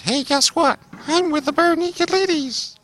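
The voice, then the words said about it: Imitates another person's voice. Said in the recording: “That's a great impression... Down to a T.”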